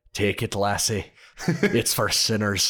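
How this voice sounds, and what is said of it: Put-on Scottish accent. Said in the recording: “whose Scottish accent is better”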